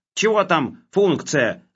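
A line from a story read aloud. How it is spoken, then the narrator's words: Yelled. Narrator (Russian): заорал Хлебоводов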